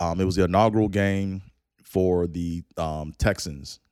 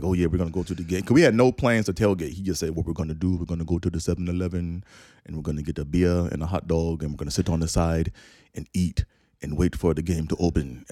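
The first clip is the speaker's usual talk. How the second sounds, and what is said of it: Put-on Caribbean accent. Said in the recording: “he's from the Caribbean, right? You know, so I'm going to do the accent”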